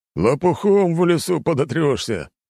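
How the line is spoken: Laughing reply. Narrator (Russian): засмеялся в ответ легионер

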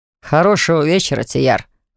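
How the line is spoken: Amused grunt. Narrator (Russian): хмыкнул я

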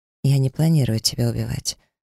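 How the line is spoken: Calm. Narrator (Russian): спокойно произнесла я

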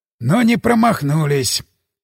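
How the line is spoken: Sighing. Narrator (Russian): вздохнул Ермолов

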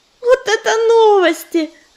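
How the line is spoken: Joyful purring. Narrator (Russian): радостно заурчала Листвечка

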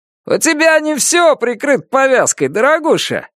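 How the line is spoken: Shout from a crowd. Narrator (Russian): крикнул кто-то из толпы

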